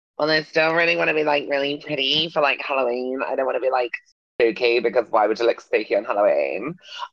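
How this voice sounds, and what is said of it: Impression of a beauty influencer. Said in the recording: “very good impression”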